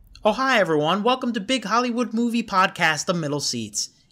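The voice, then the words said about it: Put-on Brooklyn accent. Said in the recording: “Please tell me you can do the whole review like this ... I have no accent ... I was slipping into Brooklyn”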